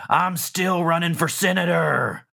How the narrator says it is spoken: he shouts

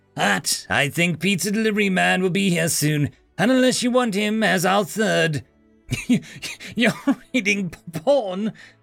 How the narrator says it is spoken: Zoe said, in laughter and surprise

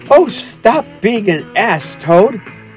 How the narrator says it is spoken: cried the mole despairingly

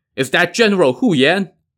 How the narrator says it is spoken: someone on the opposing line shouted

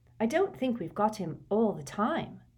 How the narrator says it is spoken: said Hermione, very quietly

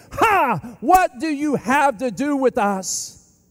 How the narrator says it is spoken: the demon screams

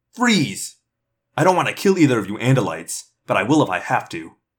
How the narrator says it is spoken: snapped

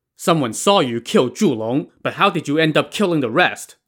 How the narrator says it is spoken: Song Jiang asked sternly

